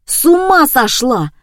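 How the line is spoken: Husband yelling. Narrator (Russian): орал супруг

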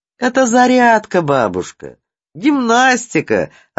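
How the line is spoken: Laughing. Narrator (Russian): рассмеялся Сережа

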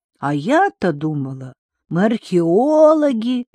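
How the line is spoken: Drawled. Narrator (Russian): протянула Лайла

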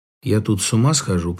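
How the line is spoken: Said gloomily. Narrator (Russian): произнес мрачно

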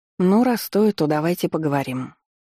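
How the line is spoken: Wistful sigh. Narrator (Russian): вздохнула я, с тоской

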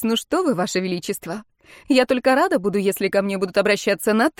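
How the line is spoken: Relieved laugh. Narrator (Russian): Я облегченно засмеялась

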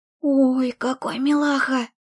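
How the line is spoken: Delighted cooing whisper. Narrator (Russian): С восторженным сюсюканьем протянула Вика, правда, почему-то шепотом

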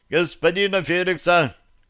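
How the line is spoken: Cheerful reply. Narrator (Russian): бодро ответил Остапий

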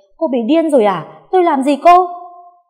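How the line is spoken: Stunned shout. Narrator (Vietnamese): Con Hiền bàng hoàng không kịp phản ứng, chỉ hét lên

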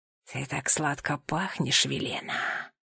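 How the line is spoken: Whisper. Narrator (Russian): прошептал Никодим

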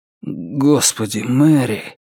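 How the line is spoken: Suddenly hoarse voice. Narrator (Russian): произнес он внезапно охрипшим голосом

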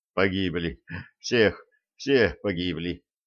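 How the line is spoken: Continuous mutter. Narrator (Russian): продолжал бормотать спасенный

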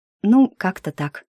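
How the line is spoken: Sad sigh. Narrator (Russian): печально вздохнула я

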